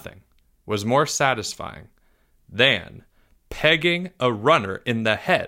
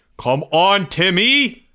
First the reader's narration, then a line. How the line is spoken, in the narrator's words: Greg screamed